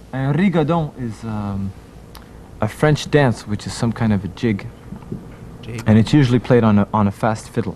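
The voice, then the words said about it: Thick French accent speaking English. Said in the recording (French): “il a pris un accent coupé au couteau à peu près comme le mien”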